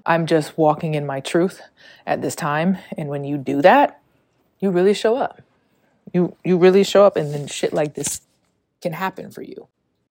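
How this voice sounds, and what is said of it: Out of breath speaking. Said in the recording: “I feel very out of breath.”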